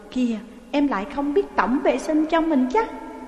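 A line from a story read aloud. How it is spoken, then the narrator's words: Laughing. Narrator (Vietnamese): Tư Dao bật cười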